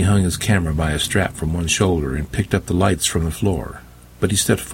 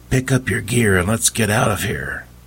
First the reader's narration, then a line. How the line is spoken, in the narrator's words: She whispered